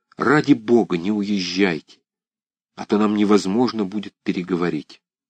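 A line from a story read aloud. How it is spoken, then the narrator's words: Hurried whisper. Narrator (Russian): Нежданов торопливо шепнул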